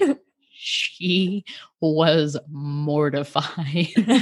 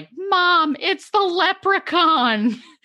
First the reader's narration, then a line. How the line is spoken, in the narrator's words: screaming in terror